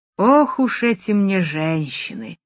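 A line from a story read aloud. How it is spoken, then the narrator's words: Sigh. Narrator (Russian): вздохнул Джимми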